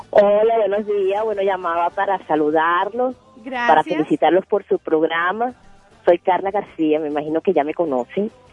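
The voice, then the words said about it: Caracas Venezuelan Spanish accent. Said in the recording (Spanish): “ese acento, ese acento caraqueño no te lo quita nadie”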